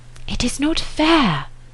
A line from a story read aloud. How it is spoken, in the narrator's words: said Emma in a whisper